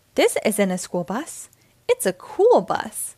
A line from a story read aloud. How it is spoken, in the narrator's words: he exclaimed